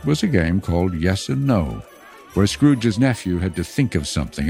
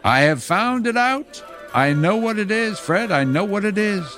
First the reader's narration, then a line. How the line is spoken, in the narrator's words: At least one of the niece's sisters, falling into a similar state, cried out